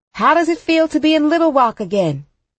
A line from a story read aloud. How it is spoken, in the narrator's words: a reporter shouts